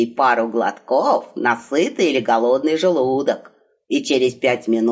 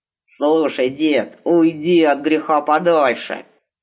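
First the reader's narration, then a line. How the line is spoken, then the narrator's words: Threatening growl. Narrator (Russian): угрожающе прорычал семафор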